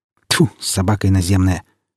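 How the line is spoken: Angry spitting. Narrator (Russian): сердито сплюнул Афанасий

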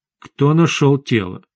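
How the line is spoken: Very calm question. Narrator (Russian): очень спокойно спросил официант

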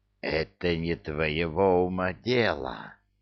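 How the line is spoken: Hissing. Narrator (Russian): прошипел Джафар

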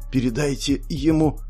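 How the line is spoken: Hoarse wheeze. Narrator (Russian): прохрипела девушка

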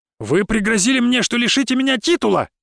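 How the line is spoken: Exclaimed. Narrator (Russian): снова воскликнул Бобров

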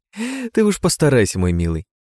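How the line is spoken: Ringing laughter. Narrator (Russian): заливисто рассмеялась Прасковья

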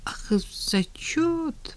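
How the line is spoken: Mumbled. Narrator (Russian): промямлил Женя

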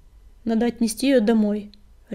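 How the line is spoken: Barked. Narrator (Russian): рявкнул коготь

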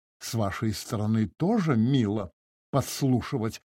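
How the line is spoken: Flustered muttering. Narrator (Russian): пробормотала Анна Семеновна, стараясь оправиться

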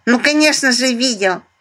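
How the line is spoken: Rolled burring speech. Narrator (Russian): прокартавил Мишка

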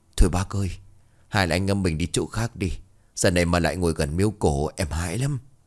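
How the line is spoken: Trembling, frightened. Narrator (Vietnamese): Lão Hằng run rẩy nói

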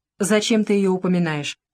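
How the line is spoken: Deep bass voice. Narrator (Russian): басил Дронов

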